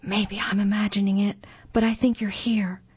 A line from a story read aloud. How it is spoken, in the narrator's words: he whispered